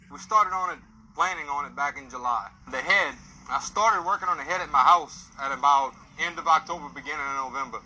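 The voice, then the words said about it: Cajun accent. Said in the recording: “Cajun accent ... how this guy talks”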